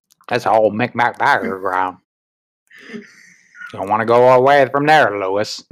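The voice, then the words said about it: Imitates an old man's voice. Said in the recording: “do a good impression of him, at least the old version.”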